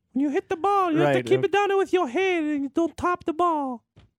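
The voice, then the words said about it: Exaggerated Italian grandmother voice. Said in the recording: “Who are you imitating right now? ... My grandmother. ... She's Italian. ... Like, very Italian. ... Was that your Italian?”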